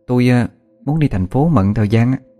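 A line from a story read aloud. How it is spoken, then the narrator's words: Hesitant. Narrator (Vietnamese): ngập ngừng một hồi rồi mới nói tiếp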